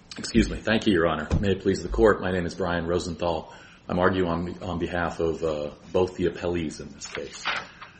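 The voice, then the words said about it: Hoarse, croaky throat. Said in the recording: “I have a frog in my throat.”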